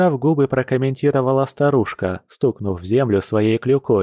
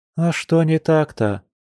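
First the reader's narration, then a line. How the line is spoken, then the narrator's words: Weary sigh. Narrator (Russian): устало вздохнула Маша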